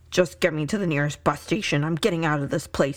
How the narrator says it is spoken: grumbled

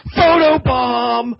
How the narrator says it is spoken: all of a sudden Adam yells

